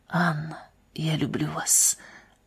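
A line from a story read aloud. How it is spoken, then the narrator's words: Whisper in ear. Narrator (Russian): прошептал на ухо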